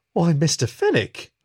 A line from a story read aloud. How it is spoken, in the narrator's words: Susie exclaimed